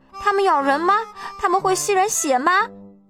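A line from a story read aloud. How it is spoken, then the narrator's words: Giggling. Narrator (Chinese): 特西咯咯地笑了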